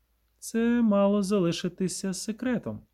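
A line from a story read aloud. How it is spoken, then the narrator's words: Calm. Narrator (Ukrainian): пояснила спокійно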